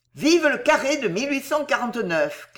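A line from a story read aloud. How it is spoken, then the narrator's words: Shouted again. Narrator (French): cria-t-il encore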